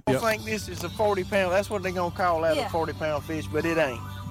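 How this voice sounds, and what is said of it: Strong Alabama Southern accent. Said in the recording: “heel jack accent ... she's from Alabama ... This is straight Alabama.”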